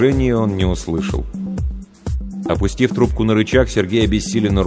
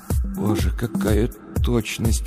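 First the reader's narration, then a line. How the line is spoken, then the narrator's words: Whispered. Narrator (Russian): прошептал Сергей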